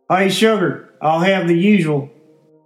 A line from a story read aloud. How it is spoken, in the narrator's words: Dirty yelled out to the waitress, Missy Butts